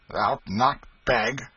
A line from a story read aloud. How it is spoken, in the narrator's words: exclaimed Hugo with surprise